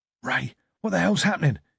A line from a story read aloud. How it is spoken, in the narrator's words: He hissed